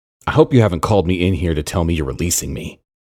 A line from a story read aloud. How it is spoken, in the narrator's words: Aaron said